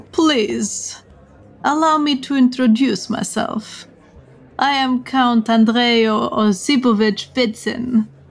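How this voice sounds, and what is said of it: Heavy put-on Russian accent. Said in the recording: “says in a heavy Russian accent”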